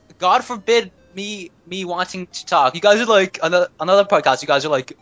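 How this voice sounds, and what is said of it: Usual voice. Nothing is said of it.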